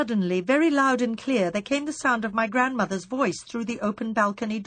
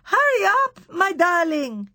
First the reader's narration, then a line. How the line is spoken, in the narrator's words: it shouted